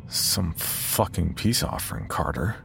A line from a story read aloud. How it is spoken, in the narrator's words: I mumble to the darkness